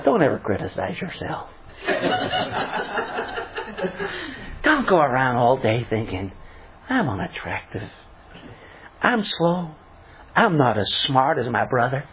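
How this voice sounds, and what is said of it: Joel Osteen impression. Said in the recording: “I have to use the Joel Osteen accent. Shall I do my Joel?”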